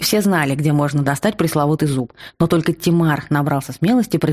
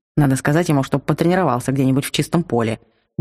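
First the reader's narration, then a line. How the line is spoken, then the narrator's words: Gruff mutter. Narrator (Russian): буркнул Алмит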